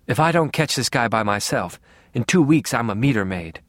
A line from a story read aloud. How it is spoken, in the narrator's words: she said